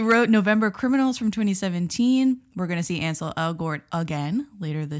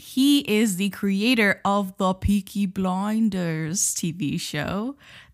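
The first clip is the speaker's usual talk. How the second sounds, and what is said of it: Put-on Peaky Blinders accent. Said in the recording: “my best impersonation of the Peaky Blinders accent.”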